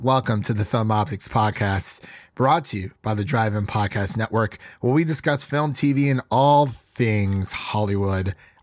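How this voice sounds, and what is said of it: Raspy, stuffy voice. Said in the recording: “My voice is a bit raspy. I'm getting over a little bit of seasonal allergies here ... you don't get to hear my, my, my nice, smooth sound radio voice ... sound a bit stuffy”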